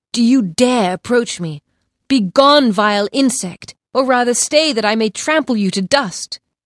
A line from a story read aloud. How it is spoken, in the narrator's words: exclaimed